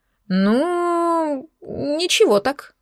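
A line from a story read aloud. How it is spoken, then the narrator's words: Drawling. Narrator (Russian): протянул Денис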